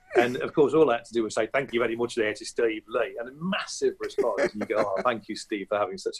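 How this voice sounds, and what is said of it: Usual voice. Nothing is said of it.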